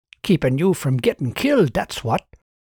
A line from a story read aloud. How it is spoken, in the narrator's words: the man said in a hoarse whisper